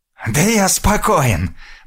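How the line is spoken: Hoarse rasp. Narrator (Russian): прохрипел Россос

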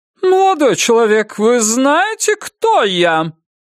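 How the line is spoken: Loud, commanding question. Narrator (Russian): громко и властно спросила она

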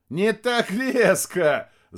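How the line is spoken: Laughing. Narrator (Russian): засмеялся Рядошкин

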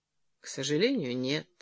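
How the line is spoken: Sad. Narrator (Russian): ответил Джерри печально

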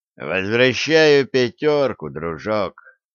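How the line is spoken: Lazy, offhand. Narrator (Russian): Макс Чилл лениво бросил

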